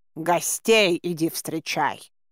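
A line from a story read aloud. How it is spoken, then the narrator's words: Hissed. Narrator (Russian): зашипел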